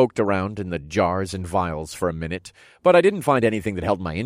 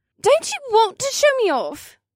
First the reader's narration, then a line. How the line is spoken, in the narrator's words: She whined